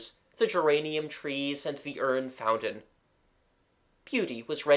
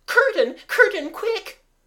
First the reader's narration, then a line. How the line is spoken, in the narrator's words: cried Beauty Mabel, in a voice that wasn't Mabel's or the Beauty's